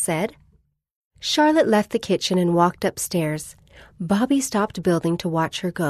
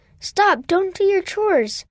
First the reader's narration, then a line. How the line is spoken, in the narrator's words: Bobby cried out